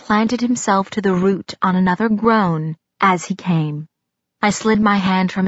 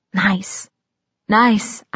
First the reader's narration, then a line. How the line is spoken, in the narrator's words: I whispered into his neck